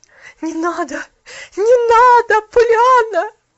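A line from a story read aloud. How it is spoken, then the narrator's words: Anguished pleading. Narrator (Russian): Взмолилась миссис Керри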